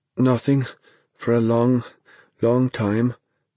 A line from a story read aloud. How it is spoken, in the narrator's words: Dennis said in a halting voice